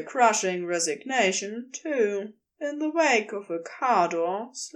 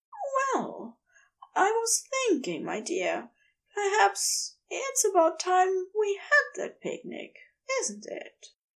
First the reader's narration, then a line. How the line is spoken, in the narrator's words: Aziraphale says gently